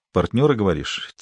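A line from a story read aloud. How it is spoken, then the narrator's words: Quiet question. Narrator (Russian): тихо спросил Зуга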